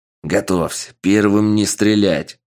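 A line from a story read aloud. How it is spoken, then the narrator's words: Barked order. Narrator (Russian): Рявкнул начальник безопасности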